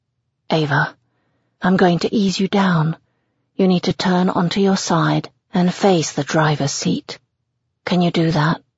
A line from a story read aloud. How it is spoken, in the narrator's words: asks softly